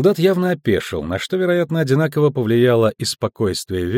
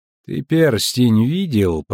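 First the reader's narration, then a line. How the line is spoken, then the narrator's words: Words through clenched teeth. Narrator (Russian): процедил комиссар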